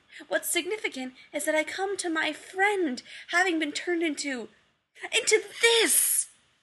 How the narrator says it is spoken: he screamed, high-pitched

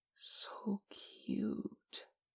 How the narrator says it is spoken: Che breathed

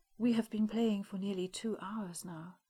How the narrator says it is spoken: the Queen went on, her tone almost melancholic

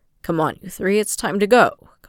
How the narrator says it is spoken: Kamaji said roughly

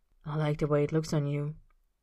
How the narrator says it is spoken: Austin says in a low murmur

